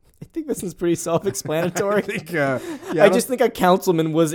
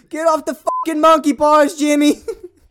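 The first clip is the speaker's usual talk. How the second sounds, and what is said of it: Bill Burr impression, shouted. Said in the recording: “Why is Bill Burr there?”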